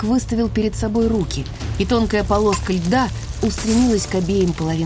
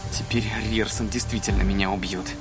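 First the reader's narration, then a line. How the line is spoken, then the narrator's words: Snort. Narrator (Russian): хмыкнул Ридок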